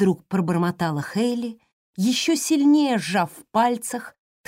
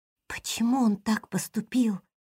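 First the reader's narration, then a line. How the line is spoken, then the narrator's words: Girl's whispered question. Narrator (Russian): шепотом спросила девочка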